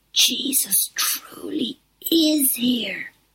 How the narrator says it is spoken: whispered the others

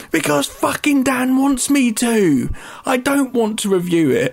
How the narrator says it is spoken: scream and say

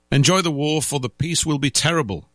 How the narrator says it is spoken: drunken people laughed

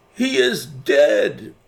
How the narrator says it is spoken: cried several voices

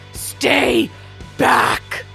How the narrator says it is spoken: Ballad screams

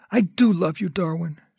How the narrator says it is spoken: said, her voice breaking

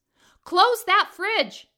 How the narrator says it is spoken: yell

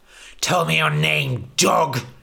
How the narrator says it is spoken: spat

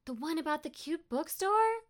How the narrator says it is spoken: Louisa squealed

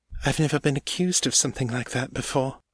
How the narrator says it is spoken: she said quietly

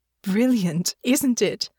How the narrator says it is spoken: Alix said, their voice full of pride

